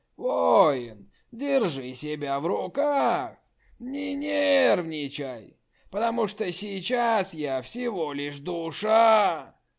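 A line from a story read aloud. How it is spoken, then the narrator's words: Hoarse. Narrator (Russian): Хрипло заговорил Барга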